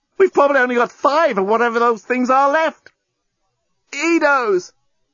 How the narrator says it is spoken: The journalist tried not to yell out with the pain of his wound

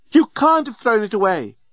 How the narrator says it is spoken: screamed the remarkably attractive and available female alien

